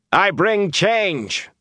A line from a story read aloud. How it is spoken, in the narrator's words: he shouted